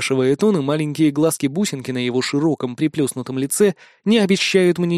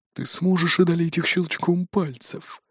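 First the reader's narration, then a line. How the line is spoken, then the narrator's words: Whisper inside the head. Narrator (Russian): раздается шепот в голове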